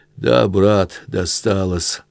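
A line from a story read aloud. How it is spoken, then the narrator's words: Breathed out. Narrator (Russian): выдохнул Сотников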